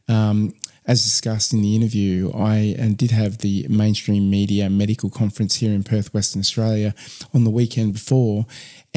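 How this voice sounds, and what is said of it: Flat, unwell-sounding voice. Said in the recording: “I'm clearly not myself. I'm really, really flat and got a funny voice.”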